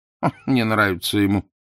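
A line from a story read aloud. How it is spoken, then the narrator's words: Snorting. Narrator (Russian): хмыкнул консул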